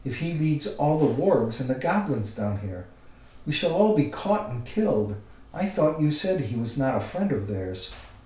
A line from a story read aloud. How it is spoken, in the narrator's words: he cried